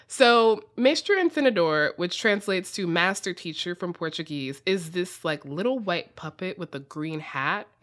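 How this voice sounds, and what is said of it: Strong American accent. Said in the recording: “my extremely American accent pronouncing this”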